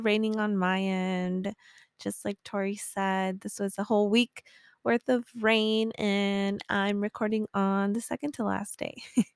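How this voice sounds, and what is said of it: Raspy, sick-sounding voice. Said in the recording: “you can hear my raspy ass voice ... I did get sick this weekend and I am still recovering”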